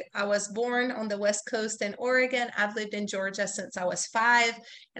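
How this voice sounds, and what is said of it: Ambiguous, hard-to-place accent. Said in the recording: “You may hear an accent, and if you saw me in person, you would be like, hey, where are you from? ... in case the sound of my voice might confuse you”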